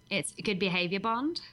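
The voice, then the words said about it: Put-on Australian accent. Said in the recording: “I can say one thing with an Australian accent ... That sounds really good”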